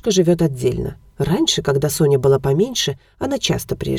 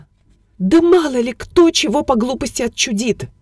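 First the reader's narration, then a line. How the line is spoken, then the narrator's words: Lady's voice rising to shriek. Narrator (Russian): Голос дамы неожиданно повысился почти до визга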